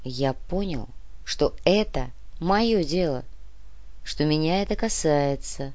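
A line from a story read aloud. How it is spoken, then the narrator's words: Slow. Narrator (Russian): медленно ответил Копылов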